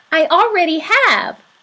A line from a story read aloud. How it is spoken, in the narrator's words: God said